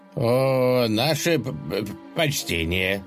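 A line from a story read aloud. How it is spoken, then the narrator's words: Slight stammer. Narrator (Russian): слегка заикаясь, проговорил он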